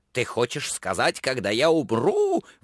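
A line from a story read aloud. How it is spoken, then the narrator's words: Shrieking old woman. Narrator (Russian): взвизгнула старуха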